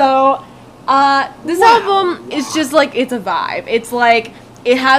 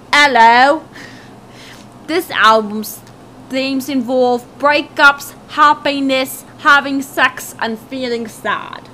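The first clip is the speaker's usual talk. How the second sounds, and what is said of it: Put-on British accent. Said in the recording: “I'll do a British accent.”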